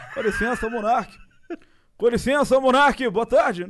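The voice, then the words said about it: Imitates another person's voice. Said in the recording (Portuguese): “o Bolsonaro eu descobri recentemente ... Não é uma, uma imitação ruim, né? Tem que estar uma coisinha melhor.”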